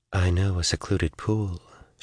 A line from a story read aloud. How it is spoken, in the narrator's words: she said softly